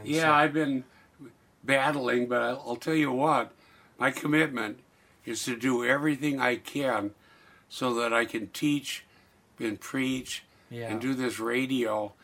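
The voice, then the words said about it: Slightly hoarse voice. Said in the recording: “a little bit of hoarseness in your voice ... your asthma has been kicking in”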